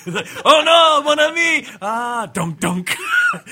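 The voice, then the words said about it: Bad put-on French accent. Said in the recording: “Can any of us do a bad French accent during the whole time?”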